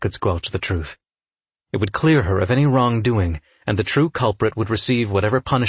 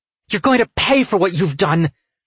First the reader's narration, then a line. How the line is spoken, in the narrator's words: she snarled